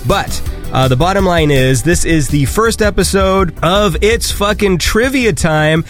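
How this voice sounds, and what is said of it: Hoarse, congested voice. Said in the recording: “My fucking throat is like... I have a cold, by the way, just in case anyone's wondering why my voice sounds like this.”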